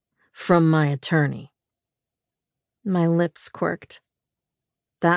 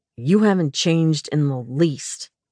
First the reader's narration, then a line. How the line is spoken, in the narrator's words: he snapped